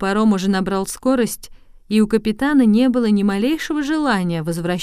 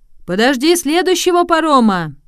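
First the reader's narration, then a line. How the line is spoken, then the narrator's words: Sailor shouting. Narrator (Russian): крикнул один моряк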